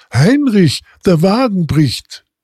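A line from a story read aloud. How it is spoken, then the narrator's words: Called out. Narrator (German): rief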